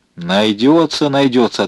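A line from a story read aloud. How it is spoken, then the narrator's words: Plain. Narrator (Russian): ответил Спиридонов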